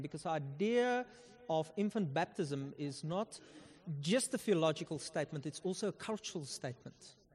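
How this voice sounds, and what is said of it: Afrikaner South African accent. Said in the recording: “I'm Afrikaner, if you can hear from my accent. Yes, you can.”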